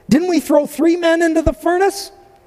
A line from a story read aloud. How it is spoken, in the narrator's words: Nebuchadnezzar jumped up in amazement and exclaimed to his advisors